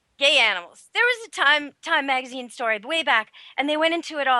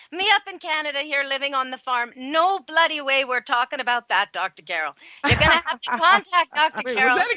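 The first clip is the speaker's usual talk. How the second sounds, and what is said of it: Put-on Canadian accent. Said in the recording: “Was that a Canadian accent? ... Yes, it is.”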